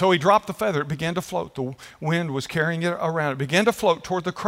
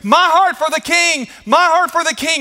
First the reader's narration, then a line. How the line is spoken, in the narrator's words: the people were still screaming